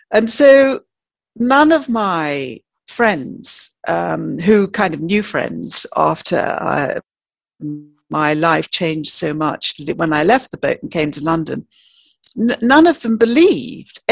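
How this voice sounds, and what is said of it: Posh English accent. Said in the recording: “you can tell by my voice, I don't perhaps sound like a normal, well, I was told I had a poncy voice”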